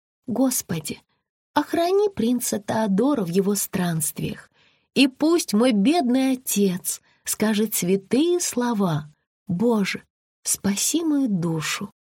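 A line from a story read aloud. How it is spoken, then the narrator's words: Quiet tearful prayer. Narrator (Russian): Белоснежка молилась и тихо плакала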